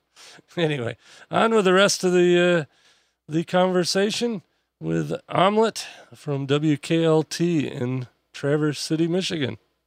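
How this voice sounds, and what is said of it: Strained, worn-out voice. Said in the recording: “losing my voice. ... I've talked too much in the last 2 days”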